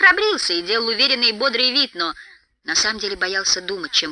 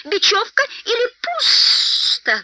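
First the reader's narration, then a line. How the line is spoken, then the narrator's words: Shrill squeal. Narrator (Russian): взвизгнул Голлум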